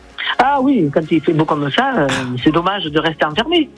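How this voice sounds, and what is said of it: Southern French regional accent. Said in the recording (French): “j'adore votre petit accent. Oh, il est magnifique. Magnifique... C'est du soleil dans la radio.”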